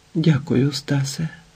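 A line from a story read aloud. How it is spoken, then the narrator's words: Flat, dull, helpless whisper. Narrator (Ukrainian): Іветта шепотіла рівнесенько на одній глухій, безпорадній моторошній ноті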